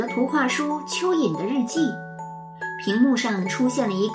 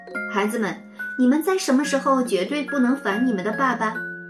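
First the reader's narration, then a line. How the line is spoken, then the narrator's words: Amused question. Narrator (Chinese): 花儿老师也笑了，问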